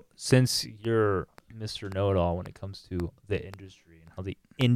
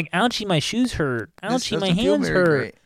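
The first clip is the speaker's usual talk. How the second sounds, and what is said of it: Whiny novice climber impression. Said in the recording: “that's my impression of a Gumby”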